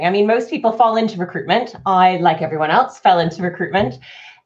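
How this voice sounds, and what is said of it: Canadian accent, slightly British-influenced. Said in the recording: “you probably could hear my accent. It's a Canadian accent, albeit with a 10 years of polishing it up maybe a little bit in the UK.”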